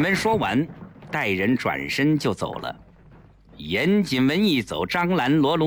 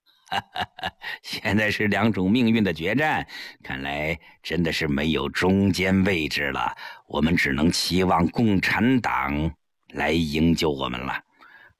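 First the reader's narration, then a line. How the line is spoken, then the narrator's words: Bitter laugh. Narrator (Chinese): 张兰苦笑道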